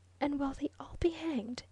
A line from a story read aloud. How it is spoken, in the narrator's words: she whispered